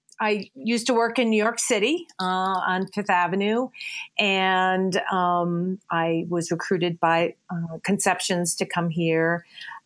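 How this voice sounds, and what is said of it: Speaks with a noticeable accent. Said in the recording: “not with my accent”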